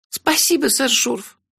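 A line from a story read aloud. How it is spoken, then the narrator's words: Squeaky. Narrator (Russian): пискнула Кенлех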